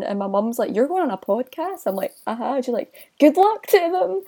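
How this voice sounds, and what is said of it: Thick Glaswegian Scottish accent. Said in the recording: “your accent. Because you've got an even thicker West Coast accent than either of us ... too Glaswegian”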